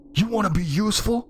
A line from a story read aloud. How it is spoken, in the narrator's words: I yelled